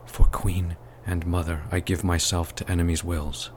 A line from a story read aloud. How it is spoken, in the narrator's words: he sighed under his breath